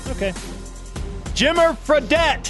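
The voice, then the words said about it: Excited yelling. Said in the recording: “I don't know why I'm yelling, but I'm excited”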